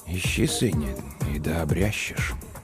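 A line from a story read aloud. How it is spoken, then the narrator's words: Very quiet, to himself. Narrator (Russian): Он ответил тихо-тихо, словно самому себе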